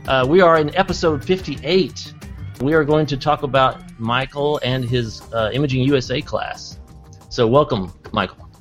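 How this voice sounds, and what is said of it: Put-on radio announcer voice. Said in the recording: “putting on my radio voice”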